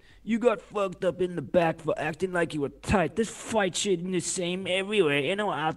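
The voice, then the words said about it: Imitates another person's voice. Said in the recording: “my best Compton impression.”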